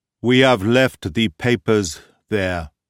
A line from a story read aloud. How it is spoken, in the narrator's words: said he solemnly